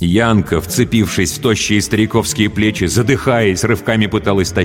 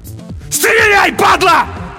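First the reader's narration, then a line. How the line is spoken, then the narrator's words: Desperate all-out yell. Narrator (Russian): заорал на смерть Олесь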